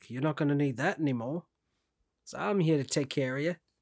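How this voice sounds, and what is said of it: Attempted accent that sounds Australian. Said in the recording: “That was almost a good accent. ... It was sounded Australian, but I like the effort. ... That was definitely more Australian.”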